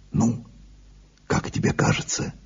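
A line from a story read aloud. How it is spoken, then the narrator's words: Quiet question. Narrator (Russian): тихо спросил Ансельмо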